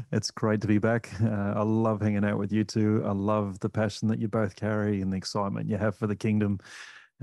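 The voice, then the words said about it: Australian accent, Aussie twang. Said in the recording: “accent there that he's got that Aussie twang.”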